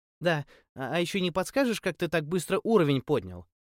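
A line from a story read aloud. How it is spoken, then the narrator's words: Timid babbling. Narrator (Russian): пролепетала пухлыми губами красавица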